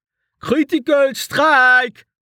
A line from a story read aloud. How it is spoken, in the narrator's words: Val shouted